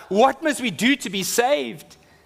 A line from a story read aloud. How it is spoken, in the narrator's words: convicted of their sin before a holy God, and they cried out